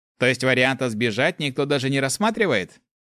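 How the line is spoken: Wry snort. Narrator (Russian): хмыкнул Руди

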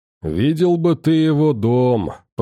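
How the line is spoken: Drawling. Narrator (Russian): протянул Гром

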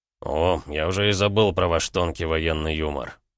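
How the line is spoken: Snorting. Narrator (Russian): фыркнул Рома

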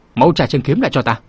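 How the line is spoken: Loud shout. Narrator (Vietnamese): sâu già quát lớn

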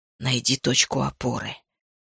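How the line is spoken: Quiet. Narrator (Russian): тихо сказал

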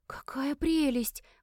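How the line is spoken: Breathless exclamation. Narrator (Russian): выдохнула Оливия

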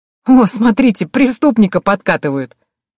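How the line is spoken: Laughing. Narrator (Russian): Рассмеявшись, Лаура

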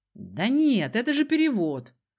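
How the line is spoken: Smug snort. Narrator (Russian): Хмыкнул Сандер с умным видом

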